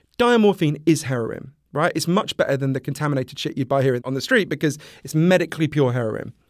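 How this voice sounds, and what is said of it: Posh British accent. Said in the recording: “In Britain, where I'm from, as you can tell from my weird Downton Abbey accent”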